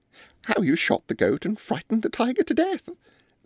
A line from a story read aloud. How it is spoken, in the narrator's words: said Miss Mebbin, with her disagreeably pleasant laugh